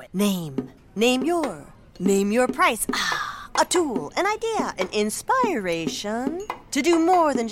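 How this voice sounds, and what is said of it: Beat poet style recitation. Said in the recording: “my impression of a beat poet”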